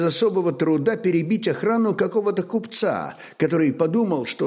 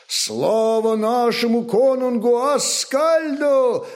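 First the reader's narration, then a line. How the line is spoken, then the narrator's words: Crowd shouting. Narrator (Russian): закричали викинги вслед за Хродульфом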